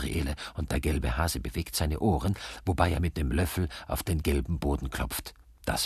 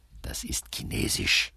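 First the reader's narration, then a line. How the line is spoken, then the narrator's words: Hurried whisper, dragon. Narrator (German): wispert der Drache hastig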